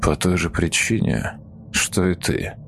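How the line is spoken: Quick quiet solemn reply. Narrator (Russian): немедленно ответил тот, негромко, но торжественно

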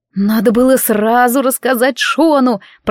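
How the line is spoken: Moaning. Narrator (Russian): простонала я

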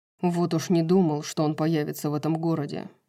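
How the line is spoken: Grumble. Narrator (Russian): проворчал Хант

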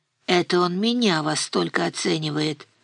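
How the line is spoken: Barely audible mutter. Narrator (Russian): пробормотала Нина чуть слышно

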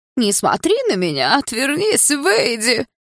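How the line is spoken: Mocking squeaky shout. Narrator (Russian): Карикатурно тоненьким голосом выкрикнул он, явно пародируя меня

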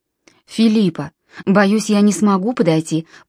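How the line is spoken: Calm. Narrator (Russian): по-прежнему спокойно проговорил Нимрод

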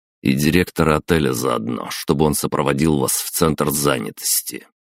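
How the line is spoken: Through clenched teeth. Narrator (Russian): процедил я

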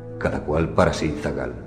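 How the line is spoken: Said quietly. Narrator (Spanish): me dijo en voz baja

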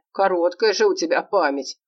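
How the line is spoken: Chuckle. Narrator (Russian): хохотнул он

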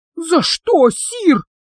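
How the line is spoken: Hoarse, catching breath. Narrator (Russian): прохрипел, когда отдышался

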